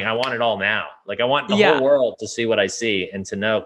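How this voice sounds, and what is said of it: Excited, energetic voice. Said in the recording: “I'm so excited for all this. You can hear it in my voice.”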